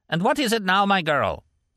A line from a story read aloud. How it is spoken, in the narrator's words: barked irritably